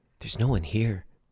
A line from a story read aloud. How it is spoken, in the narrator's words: Brett whispered to Jennifer